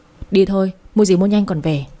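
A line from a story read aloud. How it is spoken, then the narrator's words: Cold, frowning. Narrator (Vietnamese): Kiệt chau mày, lạnh lùng nói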